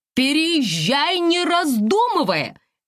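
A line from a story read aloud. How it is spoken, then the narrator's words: Shouting over the phone. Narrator (Russian): кричала в трубку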